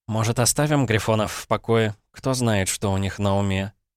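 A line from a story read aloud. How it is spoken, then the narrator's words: Languid sigh. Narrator (Russian): томно вздохнула Шари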